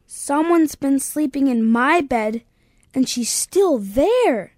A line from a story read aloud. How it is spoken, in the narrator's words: exclaimed Baby Bear